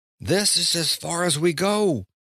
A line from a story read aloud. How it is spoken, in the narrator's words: Alaskon said, shouting to make himself heard over the tumult